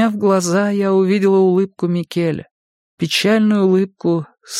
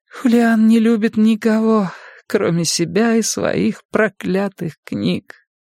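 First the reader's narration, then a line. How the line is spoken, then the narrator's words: Whisper. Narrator (Russian): прошептала я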